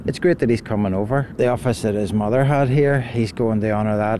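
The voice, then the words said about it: Non-local accent. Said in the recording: “I'm a visitor, obviously. You could tell by my accent.”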